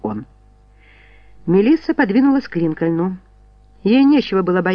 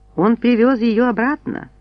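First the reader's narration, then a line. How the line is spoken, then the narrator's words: Calm remark. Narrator (Russian): спокойно заметила Кимберли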